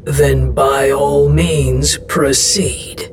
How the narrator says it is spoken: Estros growled

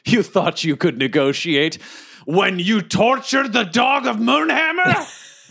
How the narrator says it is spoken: I yell to him

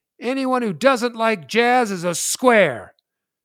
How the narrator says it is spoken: I yell out

